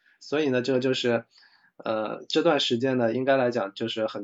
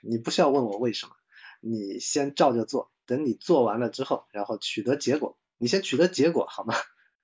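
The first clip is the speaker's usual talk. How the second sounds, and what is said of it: Huang Xiaoming bossy CEO impression. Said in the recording (Chinese): “模仿那个黄晓明霸总的那种风格”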